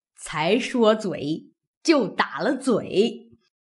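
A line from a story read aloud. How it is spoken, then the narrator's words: Laughing old woman. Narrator (Chinese): 刘姥姥已爬了起来，自己也笑了，说道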